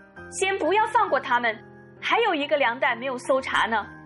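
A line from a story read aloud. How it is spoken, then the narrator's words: Sudden shout. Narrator (Chinese): 优素夫身边的一个侍从忽然喊道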